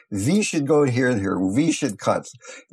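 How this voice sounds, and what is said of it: Put-on thick German accent. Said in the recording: “I cannot do accents too well ... the doctor had a fairly thick German accent ... I'm not doing it too humorously”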